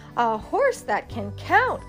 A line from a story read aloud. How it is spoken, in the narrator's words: cried French Doll